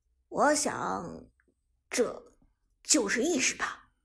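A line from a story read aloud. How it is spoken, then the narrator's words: Sighing. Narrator (Chinese): 剑南则叹道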